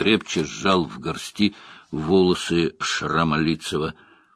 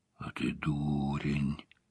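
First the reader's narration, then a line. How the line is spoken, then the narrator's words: Whisper. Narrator (Russian): прошептал Том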